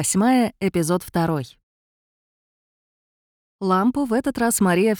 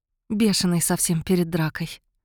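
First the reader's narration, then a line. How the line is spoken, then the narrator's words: Smiling, low voice. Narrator (Russian): улыбаясь, сказала Мария вполголоса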